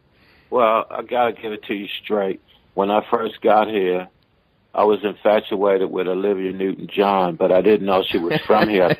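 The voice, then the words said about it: Speaks with a mixed accent. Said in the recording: “I can hear you've got a bit of an accent between the Australian and Aussie”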